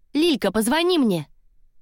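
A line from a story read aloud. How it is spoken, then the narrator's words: Shout, girl. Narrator (Russian): Какая-то девчонка крикнула подруге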